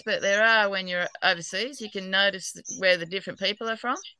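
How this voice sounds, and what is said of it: Australian accent. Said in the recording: “I'm an Aussie, New South Wales, but apparently I've got a terrible accent even in Australia.”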